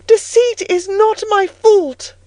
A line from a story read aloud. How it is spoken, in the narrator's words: I cried out in a savage high voice